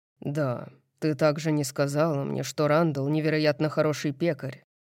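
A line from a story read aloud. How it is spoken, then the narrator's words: Grumbled. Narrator (Russian): проворчал Хант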